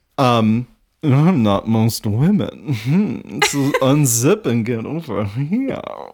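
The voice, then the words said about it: Weird put-on accent. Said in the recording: “she's like a weird accent because she's like, unzip and get over here.”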